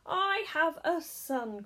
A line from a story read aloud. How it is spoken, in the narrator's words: cried Mr